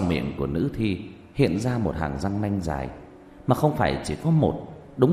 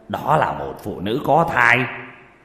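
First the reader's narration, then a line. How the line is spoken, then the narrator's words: Shocked, loud scolding. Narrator (Vietnamese): Sắc mặt đại biến, lớn tiếng trách mắng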